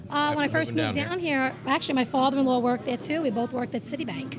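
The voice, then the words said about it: New York accent. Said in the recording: “New York style pizza that it's authentic just based on your accent.”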